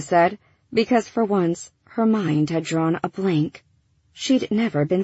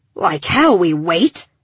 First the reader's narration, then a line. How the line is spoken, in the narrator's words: Breck rasped